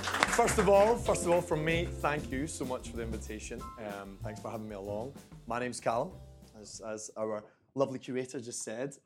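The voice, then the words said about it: Scottish accent. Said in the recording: “I'm from Scotland. Don't know if you can hear that.”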